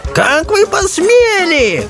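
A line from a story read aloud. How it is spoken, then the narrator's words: Shrieking. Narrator (Russian): завизжал принц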